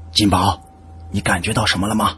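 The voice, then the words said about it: Quiet, hushed speech. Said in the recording (Chinese): “黎叔小声的对我说”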